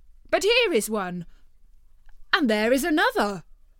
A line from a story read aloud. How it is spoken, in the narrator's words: they all exclaimed